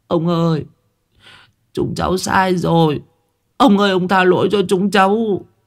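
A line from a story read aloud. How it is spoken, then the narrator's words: Whimpering, near tears. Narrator (Vietnamese): Bọn thằng Đại mếu máo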